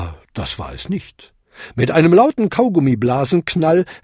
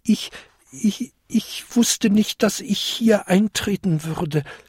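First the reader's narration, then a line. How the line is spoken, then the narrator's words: Small creature's stammer. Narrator (German): stammelte der kleinste Winterkobold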